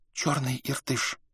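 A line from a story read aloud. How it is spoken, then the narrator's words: Whisper. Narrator (Russian): прошептала китаянка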